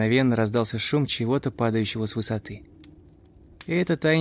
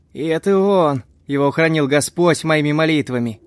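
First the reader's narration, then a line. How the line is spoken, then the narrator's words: Recovered man shouting. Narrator (Russian): Закричал быстро пришедший в себя Хэнк Дэвис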